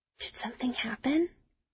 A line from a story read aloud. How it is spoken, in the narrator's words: I whisper to Margot